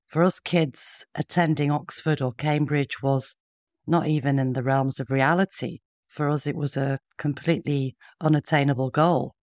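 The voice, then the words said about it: Northern English Yorkshire accent. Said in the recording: “I'm from the north myself, as you can probably hear in my accent, and growing up in Yorkshire in Sheffield.”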